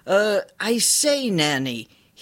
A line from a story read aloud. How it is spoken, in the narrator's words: called out